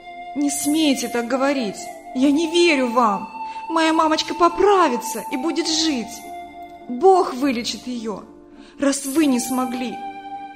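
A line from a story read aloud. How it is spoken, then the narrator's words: Shouting. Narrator (Russian): закричала Вика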